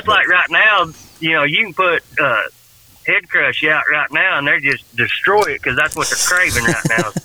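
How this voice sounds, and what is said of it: Thick, mumbled Southern accent. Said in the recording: “That southern accent. ... Marbles in his mouth.”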